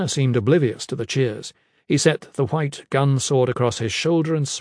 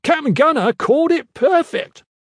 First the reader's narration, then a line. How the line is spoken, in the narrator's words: He shouted